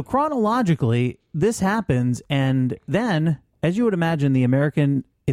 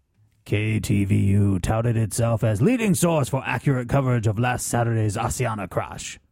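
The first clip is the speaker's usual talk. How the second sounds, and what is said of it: Stereotypical Asian accent. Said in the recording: “Probably shouldn't do the stereotypical Asian voice.”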